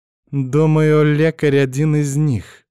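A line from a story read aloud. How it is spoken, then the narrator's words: Angry deep voice. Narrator (Russian): злобно пробасила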